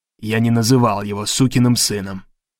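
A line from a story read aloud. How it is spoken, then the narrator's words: Grumbling. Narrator (Russian): проворчал Гарри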